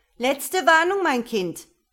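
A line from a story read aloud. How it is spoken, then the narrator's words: Shouting at full volume. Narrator (German): rief sie so laut sie konnte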